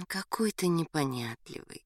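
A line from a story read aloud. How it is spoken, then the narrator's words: Tender. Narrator (Russian): нежно сказала Галя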